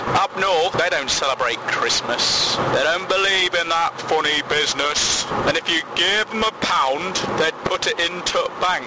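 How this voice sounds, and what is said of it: Put-on northern English accent. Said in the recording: “Where did that accent come from? ... my northern poem”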